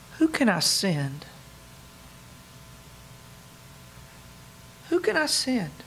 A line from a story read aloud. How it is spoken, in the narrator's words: ever so faintly, might we hear God asking